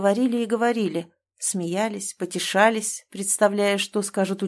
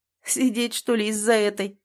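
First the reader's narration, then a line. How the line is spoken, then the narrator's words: Chuckling. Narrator (Russian): хохотнул Никита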